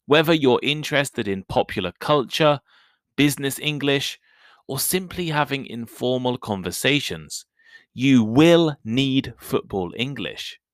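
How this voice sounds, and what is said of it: British English accent. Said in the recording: “I am British. And I also speak British English.”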